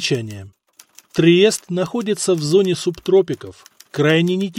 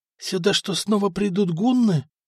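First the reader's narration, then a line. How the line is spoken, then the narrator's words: Terrified whisper, crowd. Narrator (Russian): в ужасе прошептали горожане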